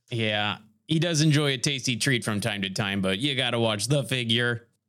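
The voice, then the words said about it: Character voice for Chip Haney. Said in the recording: “doing the voice of Chip Haney... He was too much into character already”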